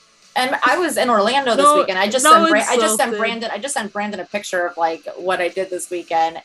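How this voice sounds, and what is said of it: Heavy New York accent. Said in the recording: “my New York accent... I always forget that you have like this heavy New York accent”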